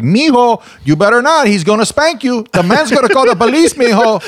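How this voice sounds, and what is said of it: Put-on Hispanic accent. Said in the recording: “it was with a Hispanic accent”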